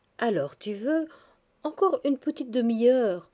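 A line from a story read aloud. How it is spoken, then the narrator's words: Warm pleading. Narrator (French): suppliait chaleureusement Sonitchka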